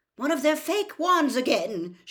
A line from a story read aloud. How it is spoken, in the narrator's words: shouted